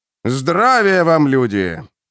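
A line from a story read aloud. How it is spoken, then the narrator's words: Pompous deep voice. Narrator (Russian): пробасил он с важностью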